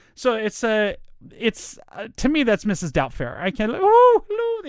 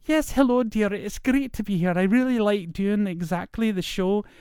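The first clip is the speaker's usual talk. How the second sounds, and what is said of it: Scottish woman's voice like Mrs. Doubtfire. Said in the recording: “every time I was trying to do a Scottish accent in my feminine voice, it would come out as Mrs. Doubtfire.”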